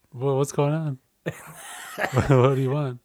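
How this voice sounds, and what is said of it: Radio announcer voice. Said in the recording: “all of a sudden like your voice changed. In a radio voice again.”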